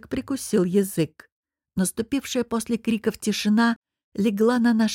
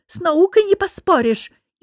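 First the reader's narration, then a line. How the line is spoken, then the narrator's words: Hysterical outburst. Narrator (Russian): истерично выкрикнул Фурдик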